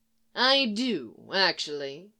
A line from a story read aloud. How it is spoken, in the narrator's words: he drawls